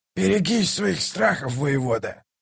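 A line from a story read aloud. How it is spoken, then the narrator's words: Growl. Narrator (Russian): прорычал Калор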